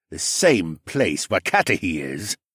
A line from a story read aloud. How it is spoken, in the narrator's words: Leno grumbled